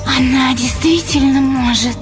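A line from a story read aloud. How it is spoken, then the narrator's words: Tense hissing question. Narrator (Russian): спросила блондинка странно напряженным и свистящим голосом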